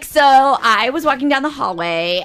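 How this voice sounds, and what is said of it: Put-on Valley girl accent. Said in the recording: “Californian. ... Valley girl, yeah.”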